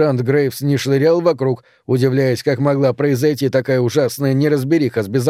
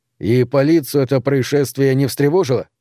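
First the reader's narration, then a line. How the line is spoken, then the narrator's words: Plain. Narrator (Russian): спросил я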